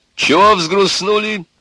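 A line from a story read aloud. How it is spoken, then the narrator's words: Cheerful and loud. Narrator (Russian): весело и громко сказал Егор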